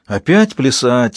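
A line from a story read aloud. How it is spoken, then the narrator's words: Sigh. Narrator (Russian): вздохнул Ангел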